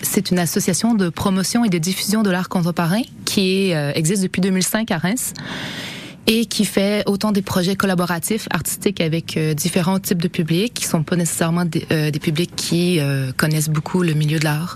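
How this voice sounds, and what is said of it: Slight Canadian French accent. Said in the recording (French): “vous allez percevoir le petit accent euh, canadien”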